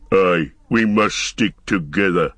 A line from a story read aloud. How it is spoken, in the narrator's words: growled Ugluk